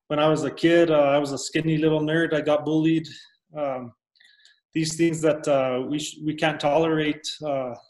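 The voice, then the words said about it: Thick Hispanic accent. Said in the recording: “I'm a Hispanic. Just listening to me, I have that thick accent.”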